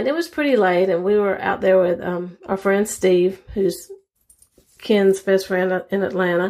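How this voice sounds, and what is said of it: Strong Southern US accent. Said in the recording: “I come across with a very strong Southern accent. Part of mine is just Southern, and part of it is because I was born in the mountains, so it's kind of a mixed combination of that.”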